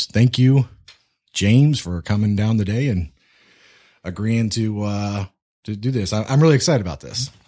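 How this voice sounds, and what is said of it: Smooth radio-style voice. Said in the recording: “You got a good radio voice, bud.”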